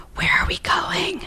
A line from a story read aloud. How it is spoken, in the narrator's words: Maggie whispered